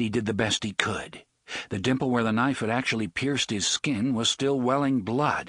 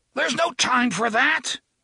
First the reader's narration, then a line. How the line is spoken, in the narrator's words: he was trying to scream and was unable